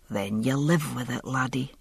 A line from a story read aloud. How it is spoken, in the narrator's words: he said softly